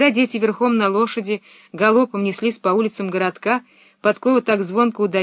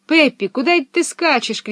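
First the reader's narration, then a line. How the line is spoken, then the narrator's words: Group shouting after her. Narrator (Russian): кричали они ей вслед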